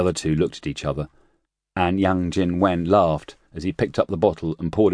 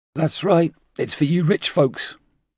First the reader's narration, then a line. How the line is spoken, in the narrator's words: Zhang Yuan Chao slurred out